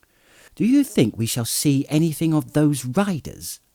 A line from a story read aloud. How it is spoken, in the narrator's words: asked Pippin cheerfully